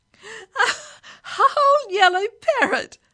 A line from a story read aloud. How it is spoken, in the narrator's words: laughed Billy Caster